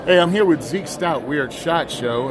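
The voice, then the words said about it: Announcer-style radio voice. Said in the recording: “put on my radio voice”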